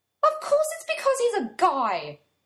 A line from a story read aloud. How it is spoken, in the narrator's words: Joe blurts out